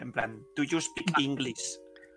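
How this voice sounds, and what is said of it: English with a thick put-on accent. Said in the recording (Spanish): “pero con un ... acento en plan cerrado ... con el acentazo”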